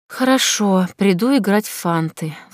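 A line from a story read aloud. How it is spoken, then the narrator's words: Sigh. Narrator (Russian): вздохнула я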